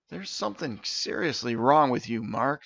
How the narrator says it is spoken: Steven sighed

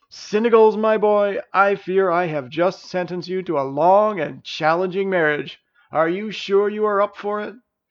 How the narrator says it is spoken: The king bellowed out another hearty laugh and said

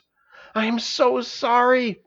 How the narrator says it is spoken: gasped Stavius as he crawled out of the birthing chamber

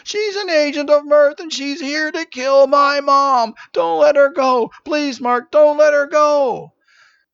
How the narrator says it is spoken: He screamed

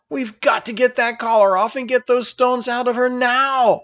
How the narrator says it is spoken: Elisa exclaimed

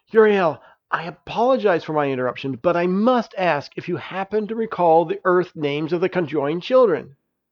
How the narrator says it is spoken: He desperately said

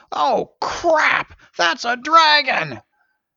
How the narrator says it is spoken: Someone shouted

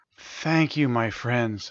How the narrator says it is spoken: she purred

